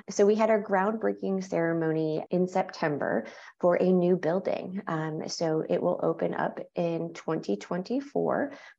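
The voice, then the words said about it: New York accent. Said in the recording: “I'm from New York and people tend to pick up. They're like, "You're not from the South." ... I don't have a Southern accent," but they say that I pronounce words a little differently”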